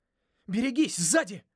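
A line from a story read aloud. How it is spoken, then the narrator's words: Shout. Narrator (Russian): крикнул я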